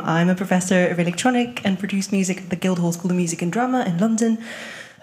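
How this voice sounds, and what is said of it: French accent. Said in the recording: “Originally, I'm from France, so if you hear that in my accent”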